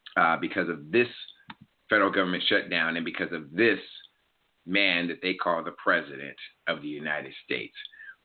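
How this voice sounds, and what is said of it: Hoarse voice. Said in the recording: “I'm a little bit hoarse, as you guys can tell, because I have been yelling, screaming, and praising God all week ... I'm just apologizing for how it sounds”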